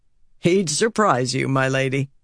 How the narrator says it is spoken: Harnan said with a laugh

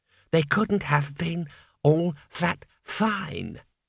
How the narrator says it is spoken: said calmly

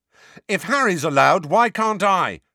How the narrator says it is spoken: shouted Ron

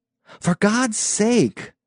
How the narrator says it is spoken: Peterson exclaimed

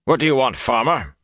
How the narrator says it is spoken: he demanded roughly

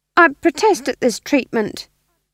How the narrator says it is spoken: said the demon, his voice tinged with uncertainty

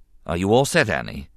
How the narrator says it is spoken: the Jedi Master asked calmly

